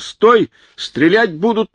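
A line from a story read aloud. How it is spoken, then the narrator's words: Policeman's thin shout. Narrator (Russian): тонко закричал участковый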